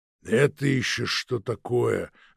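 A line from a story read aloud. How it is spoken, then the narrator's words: Booming bass. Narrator (Russian): загудел басом Сова Финогенович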